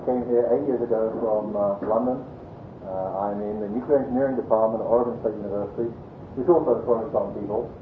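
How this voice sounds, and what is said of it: English accent. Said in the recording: “there is an 8-year-old English accent”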